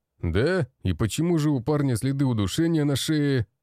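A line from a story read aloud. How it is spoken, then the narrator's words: Man barking. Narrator (Russian): Рявкнул мужчина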